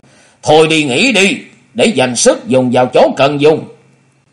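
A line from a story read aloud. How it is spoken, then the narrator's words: Cold, called upward. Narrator (Vietnamese): Hùng Tuấn lạnh lùng nói vọng lên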